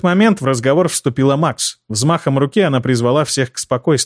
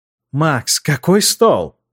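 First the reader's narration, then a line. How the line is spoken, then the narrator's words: Surprised exclamation. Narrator (Russian): удивленно воскликнула Тереза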